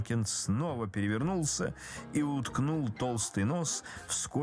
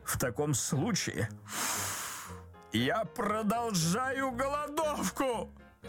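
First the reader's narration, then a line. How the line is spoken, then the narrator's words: Unhappy husband shouting. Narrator (Russian): закричал несчастный муж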